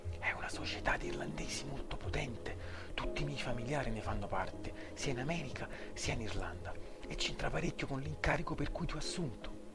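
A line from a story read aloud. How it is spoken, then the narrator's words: Quiet reply. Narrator (Italian): Rispose sottovoce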